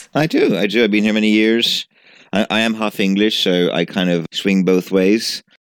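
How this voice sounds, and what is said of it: Mixed British and Italian accent. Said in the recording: “I love your accent, actually. Sometimes you sound very British and other times when you're talking about pasta, you sound very Italian. It's a lovely mix.”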